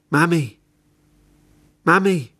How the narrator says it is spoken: He shouted

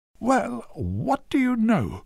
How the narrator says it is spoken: she exclaimed with a little squeak

